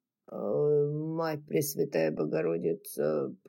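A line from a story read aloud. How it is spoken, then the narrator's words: Moaned. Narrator (Russian): простонал Джеральд, проводя сухим языком по запекшимся губам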